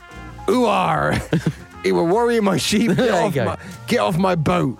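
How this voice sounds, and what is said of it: Pirate voice. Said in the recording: “Now say the exact same thing like a pirate.”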